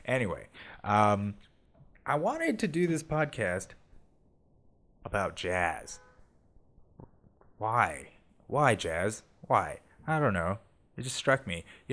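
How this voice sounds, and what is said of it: Sick, weird-sounding voice. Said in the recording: “I'm a little under the weather, so I apologize if my voice sounds weird.”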